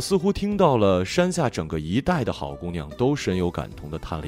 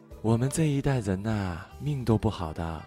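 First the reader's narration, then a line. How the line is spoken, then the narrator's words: Long wistful sigh. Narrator (Chinese): 向远处悠悠的叹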